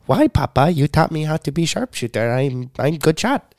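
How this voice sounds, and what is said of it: Put-on childlike accented voice. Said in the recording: “You did have that accent too when you were a kid.”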